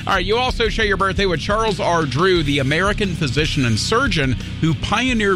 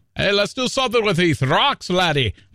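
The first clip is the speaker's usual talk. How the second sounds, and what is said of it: Poor put-on Scottish accent. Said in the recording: “That's a terrible Scottish accent.”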